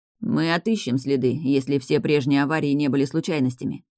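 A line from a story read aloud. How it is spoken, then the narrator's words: Grim, impressed promise. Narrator (Russian): мрачно пообещал впечатленный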